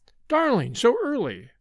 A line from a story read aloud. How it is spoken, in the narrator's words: she cried